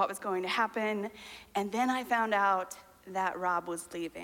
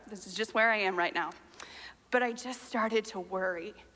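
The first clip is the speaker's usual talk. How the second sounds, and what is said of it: Choked-up, emotional voice. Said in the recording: “I get choked up.”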